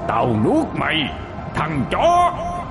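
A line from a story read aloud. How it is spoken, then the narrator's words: Monstrous screaming chorus. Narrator (Vietnamese): Toàn thân nó hiện lên chi chít các khuôn mặt đang gào thét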